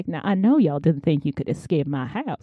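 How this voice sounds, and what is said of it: Southern gentleman character voice. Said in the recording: “he's a southern gentleman ... this accent”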